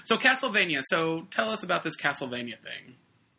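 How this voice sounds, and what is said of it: Put-on British accent. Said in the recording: “I'm going to have a British accent.”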